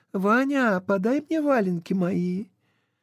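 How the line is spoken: Young voice calling. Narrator (Russian): Она позвала юным голосом

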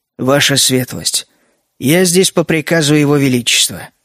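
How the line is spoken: Calm reply. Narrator (Russian): спокойно ответил коренастый капитан

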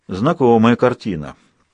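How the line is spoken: Gloomy. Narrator (Russian): мрачно произнес Людзе

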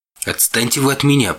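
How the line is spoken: Sharp shout. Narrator (Russian): прикрикнул я

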